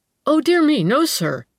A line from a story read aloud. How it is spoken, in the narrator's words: he exclaimed eagerly